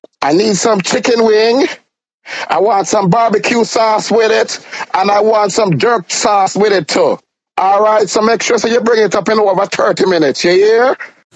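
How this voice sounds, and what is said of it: Jamaican accent. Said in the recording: “That's an authentic Jamaican accent”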